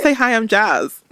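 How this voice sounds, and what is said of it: Put-on American accent. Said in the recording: “I feel like I could tackle an American accent now ... I'd love to hear your American accent”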